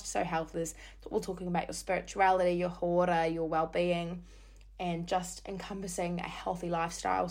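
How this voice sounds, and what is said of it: Hoarse, croaky voice. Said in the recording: “my voice is a little bit croaky, that's because I've been yelling for the past week non-stop”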